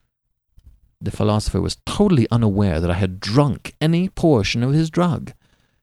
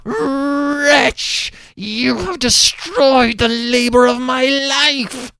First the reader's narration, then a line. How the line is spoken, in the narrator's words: Cornelius's … he shrieked aloud